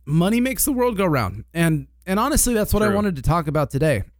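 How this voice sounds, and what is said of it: Slightly raspy, hoarse voice. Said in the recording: “I feel like my voice sounds different on this today ... I feel raspy ... you do have a little frog”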